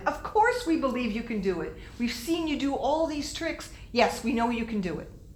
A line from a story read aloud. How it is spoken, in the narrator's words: everyone shouted